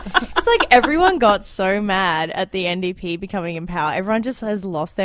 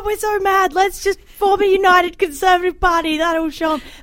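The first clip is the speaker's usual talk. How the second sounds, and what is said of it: Mocking impression of angry politicians. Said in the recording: “Great impression of the legislature.”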